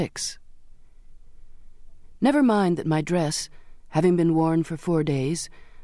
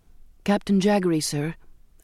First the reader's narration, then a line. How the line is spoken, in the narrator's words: I said